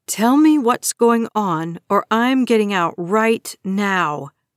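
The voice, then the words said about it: Strong, resolute voice. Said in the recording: “My voice is strong, resolute.”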